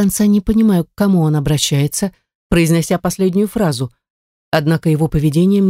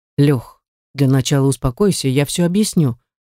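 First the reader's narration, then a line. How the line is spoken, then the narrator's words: Calm. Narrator (Russian): начинает спокойно Стас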